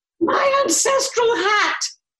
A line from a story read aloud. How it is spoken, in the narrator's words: Lady FitzTulip screamed